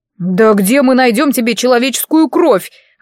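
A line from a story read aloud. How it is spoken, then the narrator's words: Wailed. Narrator (Russian): взвыл Айван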